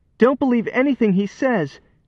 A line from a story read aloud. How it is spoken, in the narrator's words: pleaded